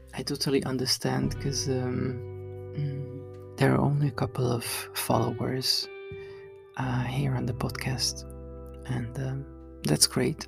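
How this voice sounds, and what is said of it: Groggy early-morning voice. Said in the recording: “my voice is morningy”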